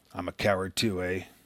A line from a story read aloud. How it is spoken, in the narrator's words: he muttered